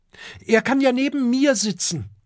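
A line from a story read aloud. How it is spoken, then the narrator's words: Shouted. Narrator (German): ruft Kokosnuss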